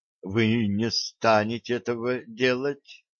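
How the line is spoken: Uncertain mumble. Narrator (Russian): неуверенно пробормотал

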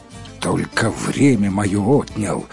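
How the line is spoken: Spiteful grumble. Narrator (Russian): злобно буркнул всадник

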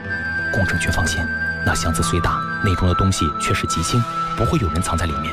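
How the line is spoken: Low voice. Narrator (Chinese): 南山低声道

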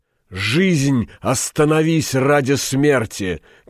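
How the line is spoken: Shouted. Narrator (Russian): крикнул Стамадор

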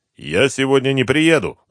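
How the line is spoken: Angry shout. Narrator (Russian): зло крикнул Артемьев

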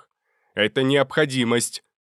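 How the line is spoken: Shout, mage. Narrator (Russian): крикнул другой маг

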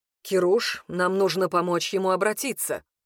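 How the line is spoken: Stern curt remark. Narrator (Russian): бросил он строго брату

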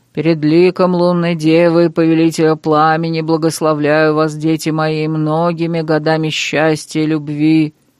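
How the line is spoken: Booming priestly voice. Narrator (Russian): Прогудел жрец

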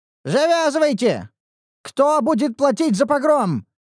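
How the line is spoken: Shouting innkeeper. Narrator (Russian): закричал хозяин трактира

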